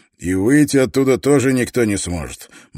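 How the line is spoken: Grim professor. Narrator (Russian): мрачно улыбнулся профессор

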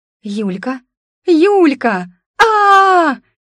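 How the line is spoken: Unrestrained squeal. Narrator (Russian): Не сдерживаясь и совершенно некультурно завизжала она

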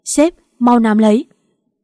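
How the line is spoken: Shouting. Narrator (Vietnamese): Phan Đường anh ta hét

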